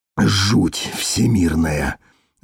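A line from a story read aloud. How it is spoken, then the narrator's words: Breathed out. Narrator (Russian): выдохнул он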